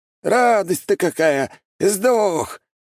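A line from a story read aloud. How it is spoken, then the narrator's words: Yelled. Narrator (Russian): заорал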